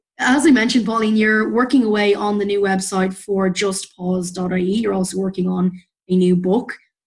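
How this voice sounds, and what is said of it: Mixed, hard-to-place accent. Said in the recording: “accent ... it's the mishmash accent where Canadians think I'm from Newfoundland and nobody else quite knows where”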